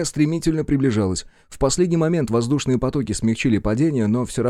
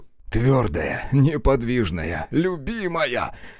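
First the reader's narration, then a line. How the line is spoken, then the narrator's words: Muttering. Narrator (Russian): бормотал он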